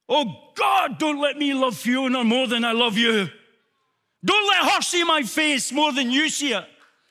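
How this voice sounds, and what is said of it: Accented, shouting, passionate preaching voice. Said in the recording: “this accent, through this shouting, through this passion”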